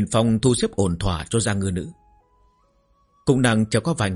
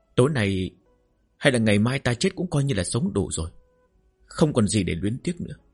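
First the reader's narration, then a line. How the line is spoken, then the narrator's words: Quiet intimate murmur. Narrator (Vietnamese): Giang Ngư nữ im lặng, dựa vào ngực hắn lẩm bẩm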